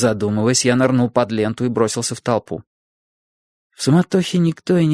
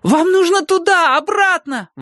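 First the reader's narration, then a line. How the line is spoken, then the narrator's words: Yelling. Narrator (Russian): вопил я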